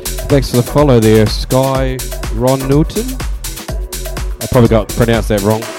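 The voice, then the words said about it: New Zealand accent. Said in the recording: “My Kiwi twang.”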